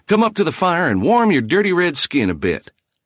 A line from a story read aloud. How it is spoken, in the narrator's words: he slapped the Indian on the back and cried noisily